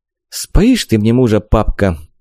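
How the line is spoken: Sighing. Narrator (Russian): вздохнула Вика

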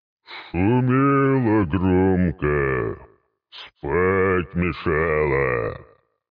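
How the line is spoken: Booming trumpet-like sea serpent. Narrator (Russian): Иерихонской трубой прогудел в голове голос морского змея

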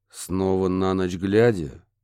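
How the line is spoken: Gloomy question. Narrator (Russian): мрачно уточнил детектив

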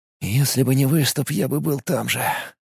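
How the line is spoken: Whisper. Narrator (Russian): прошептал Филипп

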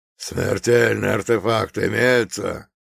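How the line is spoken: Guard's growl. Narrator (Russian): прорычал один из охранников

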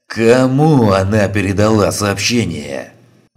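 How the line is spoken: Furious roar. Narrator (Russian): взревел Клещ

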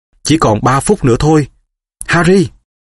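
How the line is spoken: Girl exclaiming. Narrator (Vietnamese): Cô bé kêu lên

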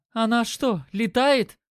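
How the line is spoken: Exclaimed. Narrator (Russian): воскликнула Катя

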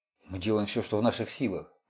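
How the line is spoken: Muttered. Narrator (Russian): пробормотал Харди

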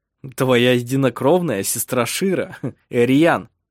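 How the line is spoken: Laughing. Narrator (Russian): засмеялся он

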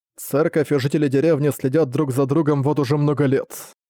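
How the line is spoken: Plain. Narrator (Russian): сказал Берзак

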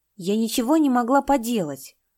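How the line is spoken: Angry. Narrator (Russian): сердито сказала Лужа

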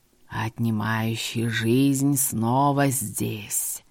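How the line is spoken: Distant hiss. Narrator (Russian): Шипение раздалось издалека

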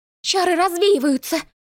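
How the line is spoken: Exclaiming. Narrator (Russian): воскликнула Маришка

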